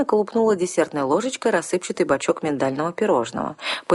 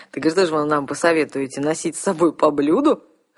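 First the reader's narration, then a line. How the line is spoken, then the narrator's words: Chuckling veteran commander. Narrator (Russian): хохотнул отставной тысячник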